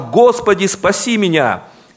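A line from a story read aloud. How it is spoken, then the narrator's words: Frightened, drowning cry. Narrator (Russian): испугался и, начав утопать, закричал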